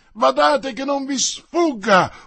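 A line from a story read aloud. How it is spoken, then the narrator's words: Very loud yell. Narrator (Italian): urlò una voce fortissima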